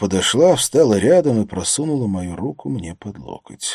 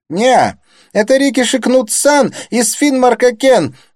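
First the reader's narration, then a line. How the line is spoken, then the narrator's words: Squealed. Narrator (Russian): завизжал Кнут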